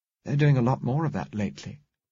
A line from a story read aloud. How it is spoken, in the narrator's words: said